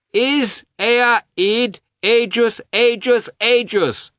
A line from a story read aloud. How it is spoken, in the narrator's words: shouted Grisha, hopping down the avenue